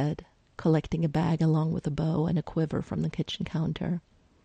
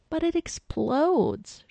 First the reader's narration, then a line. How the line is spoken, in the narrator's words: she whined